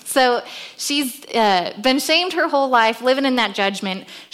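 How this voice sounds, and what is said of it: Loud hollering teacher voice. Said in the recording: “I don't normally use a microphone when I'm talking to the kids. I use my teacher voice. So they're just used to me hollering at them.”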